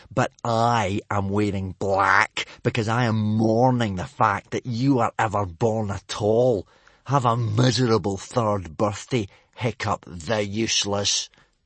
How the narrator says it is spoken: Snotlout had snarled

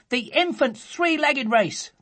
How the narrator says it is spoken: they cried

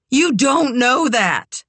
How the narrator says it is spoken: Kit shouted

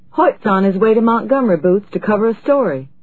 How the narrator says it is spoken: Brightly, said

